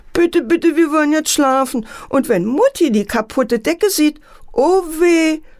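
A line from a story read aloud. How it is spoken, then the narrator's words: Sobbing. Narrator (German): schluchzte Antje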